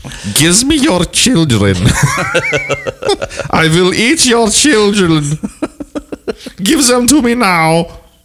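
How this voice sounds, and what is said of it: Put-on German accent. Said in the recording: “I'm going to say that with a Nazi accent.”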